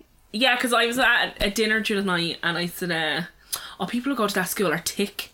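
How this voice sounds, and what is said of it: Dublin Irish accent. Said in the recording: “it was actually very Dublin... A fucking Dublin accent”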